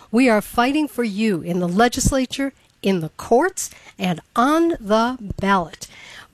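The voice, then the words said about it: Raspy voice from a cold. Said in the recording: “I'm getting over a bit of a cold, so if I sound raspy ... You've got that Marlena Dietrich sound”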